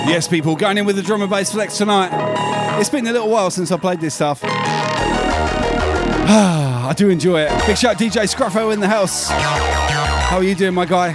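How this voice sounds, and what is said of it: Breathless, out-of-breath speech. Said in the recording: “I'm running out of breath.”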